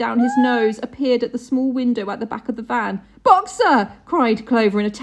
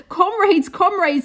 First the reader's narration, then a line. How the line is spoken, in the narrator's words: they shouted